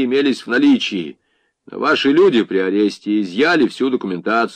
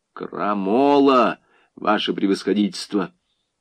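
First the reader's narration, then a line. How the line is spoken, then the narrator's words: Quiet, hateful. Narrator (Russian): С ненавистью глядя на весовщика, тихо произнес следователь по особым поручениям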